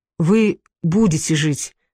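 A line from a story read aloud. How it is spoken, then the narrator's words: Plain. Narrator (Russian): сказал доктор Хью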